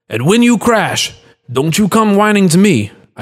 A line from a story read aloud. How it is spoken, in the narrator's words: I shouted at his retreating back